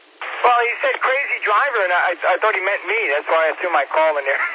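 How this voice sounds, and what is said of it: New York accent. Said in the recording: “my New York accent ... I'm used to that New York-ish accent”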